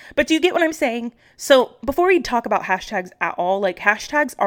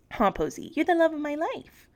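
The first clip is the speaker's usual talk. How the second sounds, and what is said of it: Doting voice for talking to a dog. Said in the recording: “My dog mom voice.”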